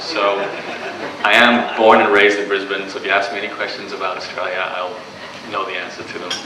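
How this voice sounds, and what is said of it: Canadian accent. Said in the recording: “I sound probably like I have an accent to you. I do, I have a Canadian accent.”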